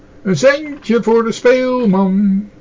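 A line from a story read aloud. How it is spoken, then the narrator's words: Calling out repeatedly. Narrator (Dutch): riep hij telkens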